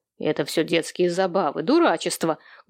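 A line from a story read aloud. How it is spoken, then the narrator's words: Rough rebuke. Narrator (Russian): грубо осадил дочь Сэм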